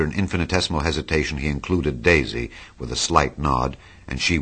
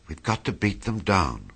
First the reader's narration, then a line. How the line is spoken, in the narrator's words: whispered Daisy